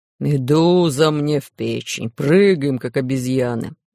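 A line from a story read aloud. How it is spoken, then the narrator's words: Grumbling pirate. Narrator (Russian): ворчал пират Буль-Буль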